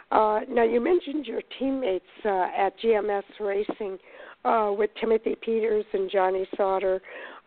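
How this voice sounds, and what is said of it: Strained, sick-sounding voice. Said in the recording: “I apologize for my voice tonight. I've had a little bit of a cold this weekend”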